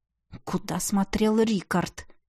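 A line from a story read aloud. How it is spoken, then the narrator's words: Displeased grumble, executioner. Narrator (Russian): Недовольно проворчал палач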